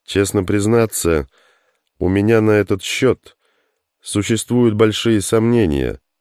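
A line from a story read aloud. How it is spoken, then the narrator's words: Thoughtful. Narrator (Russian): задумчиво произнес Стинов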